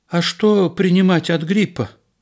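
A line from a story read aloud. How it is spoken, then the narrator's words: Timid question. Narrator (Russian): робко спросила жена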